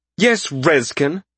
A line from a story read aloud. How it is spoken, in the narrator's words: Malcius said angrily